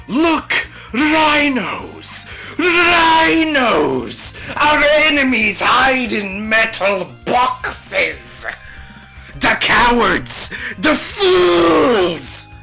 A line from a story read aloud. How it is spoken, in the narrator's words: Lord Karen was less than impressed by this, and began shouting